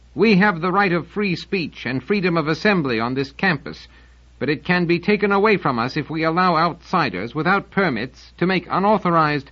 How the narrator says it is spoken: he called out

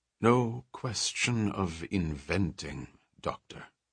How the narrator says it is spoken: said Gottstein soothingly

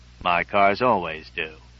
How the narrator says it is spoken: I replied stiffly

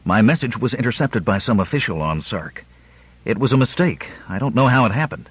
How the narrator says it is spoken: went on breathlessly

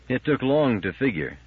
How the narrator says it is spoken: said the Brain

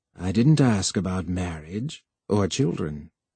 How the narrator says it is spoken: The computer said gravely

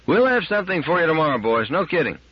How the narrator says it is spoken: shouted

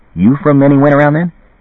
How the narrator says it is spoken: Then, eagerly

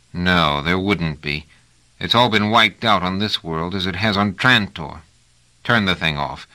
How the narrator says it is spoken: Trevise said bitterly

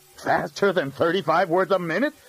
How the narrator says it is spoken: said Graham sternly

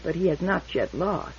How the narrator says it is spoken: murmured Barr politely

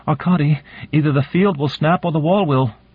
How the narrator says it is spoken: said urgently

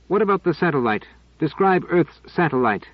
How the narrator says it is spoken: said Pellerat sharply

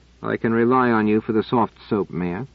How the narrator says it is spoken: said Cadell dryly

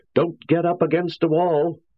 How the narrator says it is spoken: I shouted

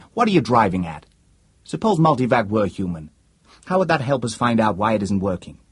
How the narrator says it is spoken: Weaver said impatiently

